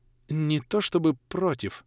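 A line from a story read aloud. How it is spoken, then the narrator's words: Mumbled. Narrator (Russian): промямлил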